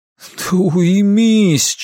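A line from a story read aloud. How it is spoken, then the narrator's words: Near groan. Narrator (Russian): чуть ли не простонал он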